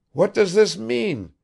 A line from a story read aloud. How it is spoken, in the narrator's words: he called out in an agitated voice